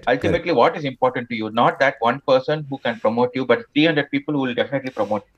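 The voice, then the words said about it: Tamil Indian English accent. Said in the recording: “Accept you are a Tamilian... Accept that you have this accent. Accept that you have this diction.”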